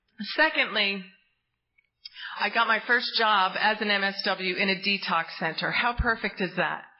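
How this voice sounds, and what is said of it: Choked-up, emotional voice. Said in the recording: “I'm getting choked up.”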